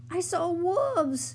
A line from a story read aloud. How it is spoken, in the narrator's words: cried Mona